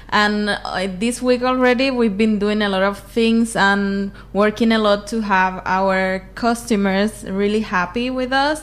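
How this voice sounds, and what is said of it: Slight Cuban accent. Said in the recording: “You have a little Cuban accent, huh? ... You're Cuban, right?”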